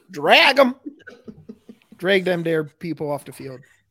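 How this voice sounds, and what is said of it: Put-on toothless rural accent. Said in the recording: “What was that accent? It's like half. ... it's toothless like... people I see up here. That's what they sound like.”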